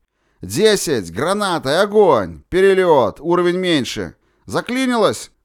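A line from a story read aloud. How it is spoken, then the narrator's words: Gunner shouting. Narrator (Russian): крикнул наводчик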